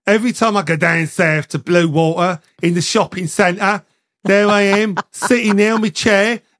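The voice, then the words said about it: Regional English accent. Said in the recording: “Everyone comes up and has a little go at me about my accent”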